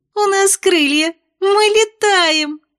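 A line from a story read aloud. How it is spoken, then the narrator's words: Giggling. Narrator (Russian): хихикнула Эль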